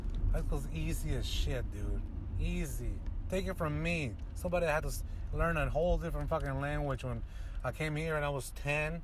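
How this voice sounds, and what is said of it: Non-native English accent, sounds Russian. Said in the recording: “my accent isn't perfect. I haven't lost my accent. I still have some. You know, people think I'm Russian”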